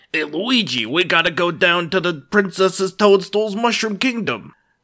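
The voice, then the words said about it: Mario impression, Brooklyn accent. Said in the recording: “Mario has, like, two voices. There's Brooklyn voice and Italian voice.”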